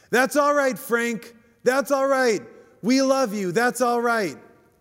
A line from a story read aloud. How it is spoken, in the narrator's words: someone from the back stands up and shouts